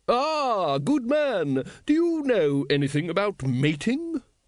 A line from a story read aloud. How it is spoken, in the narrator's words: it boomed